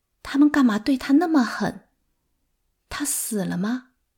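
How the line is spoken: Trembling question. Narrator (Chinese): 我声音发颤地问马涛

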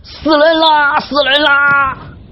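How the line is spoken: Panicked shouting while running. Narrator (Chinese): 一边跑一边喊

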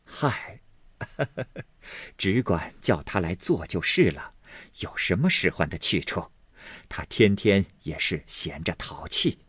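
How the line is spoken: Several voices, laughing. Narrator (Chinese): 薛姨妈、宝钗等都笑道

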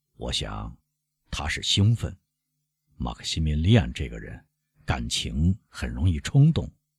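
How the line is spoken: Slow drawl. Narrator (Chinese): 沙特勒诺慢吞吞地说

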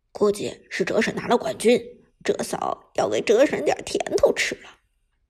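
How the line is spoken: Low voice. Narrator (Chinese): 低声对旁边的两名小伙伴道

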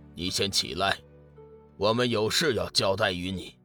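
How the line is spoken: Calm, flat. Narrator (Chinese): 浩星淡淡道

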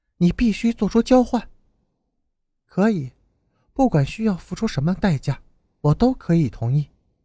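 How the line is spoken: Flat, indifferent. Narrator (Chinese): 淡淡的说

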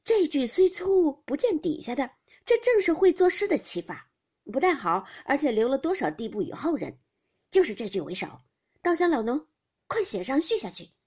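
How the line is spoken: Laughing together. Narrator (Chinese): 都相视笑道

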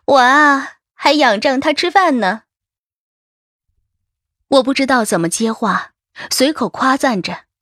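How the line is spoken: Laughing. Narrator (Chinese): 小杨笑着说

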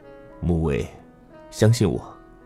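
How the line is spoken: Low voice. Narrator (Chinese): 他的声音很低

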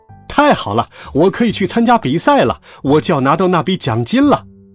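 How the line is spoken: Joyful shout. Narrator (Chinese): 我高兴的大喊起来

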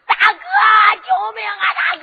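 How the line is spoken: Shouting. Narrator (Chinese): 他这一喊

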